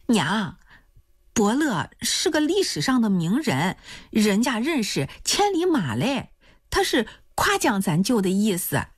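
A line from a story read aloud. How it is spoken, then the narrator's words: Laughing. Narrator (Chinese): 来蒂就笑了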